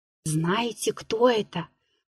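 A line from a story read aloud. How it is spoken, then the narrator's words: Timid distant whisper. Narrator (Russian): послышался робкий шепот из далекого угла вагона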